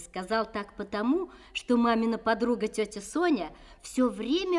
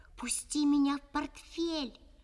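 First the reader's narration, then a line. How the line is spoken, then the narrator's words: Whisper. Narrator (Russian): шепнул Жаконе Кости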